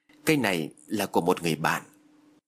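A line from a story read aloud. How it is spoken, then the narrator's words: Terrified stammer. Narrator (Vietnamese): Phước điếng hồn, lắp bắp nói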